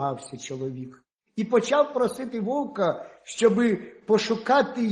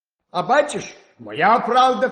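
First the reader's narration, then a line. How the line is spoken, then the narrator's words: Wolf shouting. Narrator (Ukrainian): крикнув вовк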